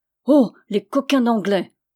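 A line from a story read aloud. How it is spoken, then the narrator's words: Group growling. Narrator (French): gronda le cœur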